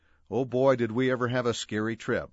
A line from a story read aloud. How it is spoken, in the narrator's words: Mom exclaimed